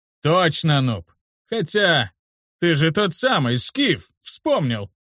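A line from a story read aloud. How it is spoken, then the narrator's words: Loud laughter. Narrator (Russian): Он расхохотался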